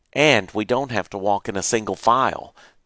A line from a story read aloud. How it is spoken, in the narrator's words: Jerry said